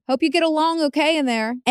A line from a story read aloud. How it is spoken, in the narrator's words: somebody in the car had shouted at them